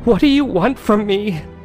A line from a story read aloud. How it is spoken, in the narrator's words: cried out in a loud whisper